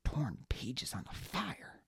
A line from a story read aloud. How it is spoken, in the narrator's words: Baz muttered